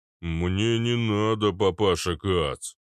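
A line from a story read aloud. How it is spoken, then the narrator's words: Muttered. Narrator (Russian): пробурчал Арнольд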